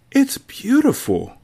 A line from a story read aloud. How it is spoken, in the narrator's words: Kit gasps